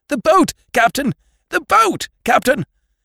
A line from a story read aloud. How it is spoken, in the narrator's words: abruptly I found myself shouting in a queer, frightened voice